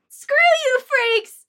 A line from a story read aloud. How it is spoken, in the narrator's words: I yelled back at her, tears of frustration and betrayal forming in my eyes